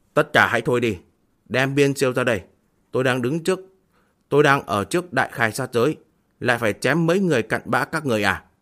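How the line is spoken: Shouting. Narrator (Vietnamese): Diệp Mặc quát một tiếng

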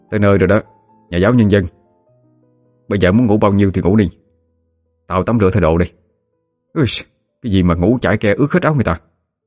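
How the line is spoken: Irritated, angry. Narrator (Vietnamese): cậu nói với Thụy bằng một giọng điệu vừa tức vừa giận

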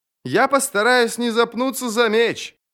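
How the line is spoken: Shout. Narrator (Russian): крикнул он

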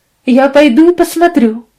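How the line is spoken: Exclaim. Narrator (Russian): воскликнула мадам

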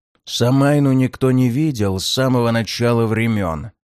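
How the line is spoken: Almost furious growl. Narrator (Russian): почти яростно рыкнул Ворган

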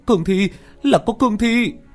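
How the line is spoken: Shrill scream. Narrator (Vietnamese): tiếng hét chói tai

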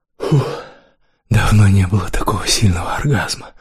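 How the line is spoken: Whisper. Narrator (Russian): прошептал Кирилл

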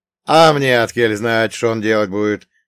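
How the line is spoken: Smirking grunt. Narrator (Russian): хмыкнул Елисей

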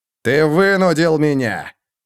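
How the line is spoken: Growling. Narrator (Russian): прорычал Роди

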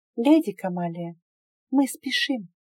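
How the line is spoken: Whisper. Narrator (Russian): прошептала

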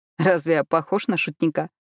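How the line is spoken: Giggling. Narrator (Russian): Он хихикнул

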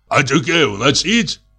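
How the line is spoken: Hoarse bass question. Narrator (Russian): спросила вторая хриплым басом

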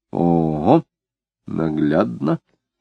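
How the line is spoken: Quiet. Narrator (Russian): тихонько сказала Марина

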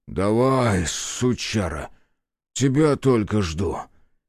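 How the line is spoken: Hoarse rasp. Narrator (Russian): Прохрипел грач

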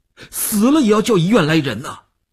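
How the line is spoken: Almost shouting. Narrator (Chinese): 吴长天头皮一紧，他几乎要喊起来

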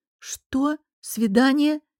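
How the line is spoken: Questioning repeat. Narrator (Russian): переспросила я

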